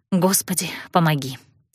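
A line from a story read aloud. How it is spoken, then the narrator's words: Whisper. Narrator (Russian): шепнула я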